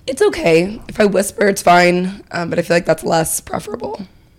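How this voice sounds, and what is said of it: Squeaky, partly lost voice. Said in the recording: “A little bit squeaky. My voice is just a little bit gone.”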